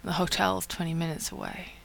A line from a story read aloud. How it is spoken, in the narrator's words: John says hoarsely